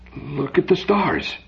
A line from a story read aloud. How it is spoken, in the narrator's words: Someone near Biren said shakily